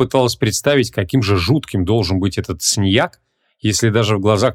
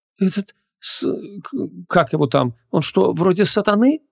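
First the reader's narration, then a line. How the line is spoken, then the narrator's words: Timid question. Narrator (Russian): Робко поинтересовалась она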